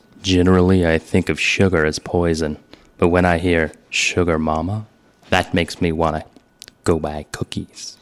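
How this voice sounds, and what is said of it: Deep, close-mic impression voice. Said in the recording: “I turn my microphone all the way up. I get really close to it. I go deep. I make gross mouth noises. ... That's very good.”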